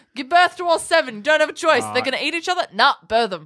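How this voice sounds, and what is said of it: Imitates another person's voice. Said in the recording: “What an amazing Trump impersonation.”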